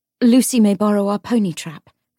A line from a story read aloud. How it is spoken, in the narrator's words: Grace said quickly